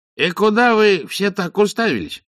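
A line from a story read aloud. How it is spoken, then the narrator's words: Cheerful exclamation. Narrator (Russian): бодро воскликнул Сдумс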